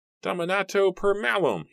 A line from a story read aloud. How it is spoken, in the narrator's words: he screamed